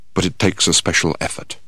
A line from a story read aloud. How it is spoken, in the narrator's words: He then added in a quiet voice